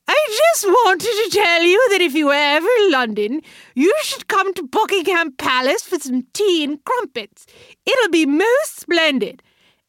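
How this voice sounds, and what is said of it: Awful put-on English accent, higher voice. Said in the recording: “in an awful English accent ... her voice getting higher, the English accent is getting more offensive”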